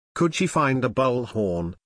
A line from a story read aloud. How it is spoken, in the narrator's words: Rove asked